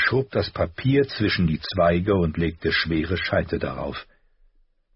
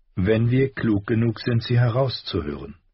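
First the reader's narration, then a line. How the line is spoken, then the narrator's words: Gentle explanation. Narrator (German): erklärte sanft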